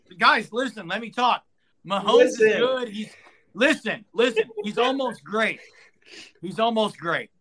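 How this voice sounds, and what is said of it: Imitates another person's voice. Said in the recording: “your impersonation? Sucked.”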